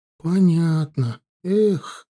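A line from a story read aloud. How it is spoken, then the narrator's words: Sighed. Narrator (Russian): вздохнула Эрли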